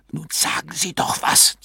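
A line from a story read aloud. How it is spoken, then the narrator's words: Hissed. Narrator (German): zischte Mr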